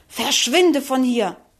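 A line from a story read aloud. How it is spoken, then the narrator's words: Angry hiss. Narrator (German): fauchte wütend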